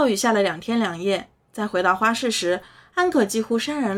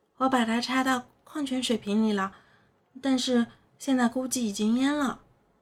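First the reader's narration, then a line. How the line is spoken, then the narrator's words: Quiet, hushed. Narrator (Chinese): 他小声说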